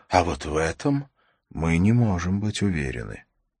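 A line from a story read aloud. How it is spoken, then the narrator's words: Quiet. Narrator (Russian): тихо сказал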